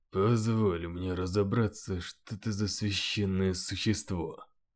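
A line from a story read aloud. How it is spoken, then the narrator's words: Mutter. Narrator (Russian): пробормотал Джозеф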